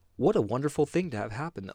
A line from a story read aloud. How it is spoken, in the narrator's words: villagers cried